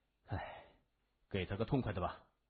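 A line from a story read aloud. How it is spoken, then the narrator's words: Sighing. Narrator (Chinese): 谢文东叹了口气说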